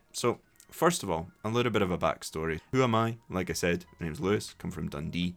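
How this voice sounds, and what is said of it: Scottish accent. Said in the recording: “my accent ... with a bit of a different accent ... Scottish English ... listening to Scottish accents ... bring you my accent”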